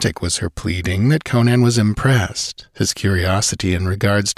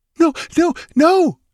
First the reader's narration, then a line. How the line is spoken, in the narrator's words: she cried, clutching at him desperately